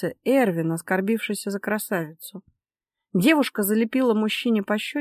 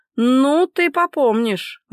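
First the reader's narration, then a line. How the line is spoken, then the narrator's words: Growled. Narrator (Russian): рыкнул тот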